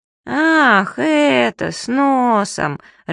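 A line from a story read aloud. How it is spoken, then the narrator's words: Disappointed drawl. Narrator (Russian): разочарованно протянул Субастик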